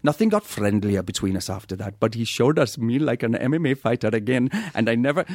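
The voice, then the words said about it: Put-on Welsh accent, slipping. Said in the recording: “I can't even do my impression badly because I've been away for like 2 days and I've lost it ... Your Welsh is getting better ... think of Matthew Rhys ... Within about 17 words, it is Gandhi.”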